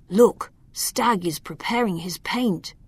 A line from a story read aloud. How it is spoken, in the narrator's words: Loriano peeked outside and whispered to Alma